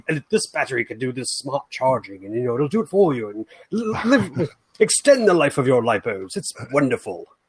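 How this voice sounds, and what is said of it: Elegant British accent impression. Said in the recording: “they got a British accent fella to talk about it in their promo video. Like, being that he's British, it was just seemed more, you know, elegant”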